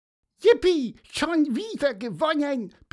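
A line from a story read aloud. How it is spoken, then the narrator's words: Squeaky voice. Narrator (German): piepste Pieper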